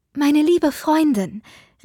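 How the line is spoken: Calling out. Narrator (German): rief Lucy

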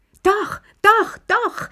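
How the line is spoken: Shouted. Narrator (German): schrie Lilli

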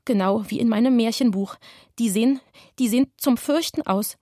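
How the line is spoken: Stuttering. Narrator (German): stotterte Anatol

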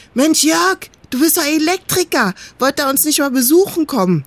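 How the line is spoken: Calling out. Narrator (German): rief

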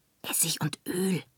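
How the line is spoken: Whispered. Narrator (German): flüsterte

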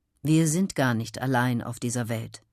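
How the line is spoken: Plain. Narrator (German): sagt Albrecht

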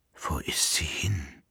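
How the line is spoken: Emperor whispering. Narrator (German): flüsterte der Kaiser

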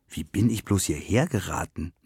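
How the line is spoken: Murmur. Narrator (German): murmelte sie

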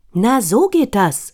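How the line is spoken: Called out. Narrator (German): ruft Frau Makrele

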